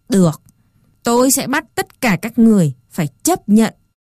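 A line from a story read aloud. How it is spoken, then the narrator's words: Harsh emphatic voice. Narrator (Vietnamese): Chán Dô gằn giọng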